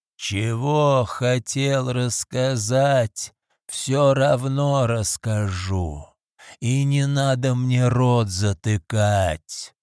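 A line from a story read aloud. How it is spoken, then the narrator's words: Growling. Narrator (Russian): прорычал Люк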